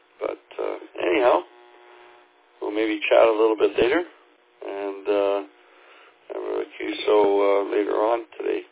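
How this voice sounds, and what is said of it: Slightly hoarse voice. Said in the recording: “my voice is a little bit hoarse here this morning. I'm still waking up”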